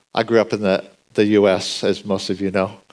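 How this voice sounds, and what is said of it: American accent. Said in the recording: “I think my accent gives me away.”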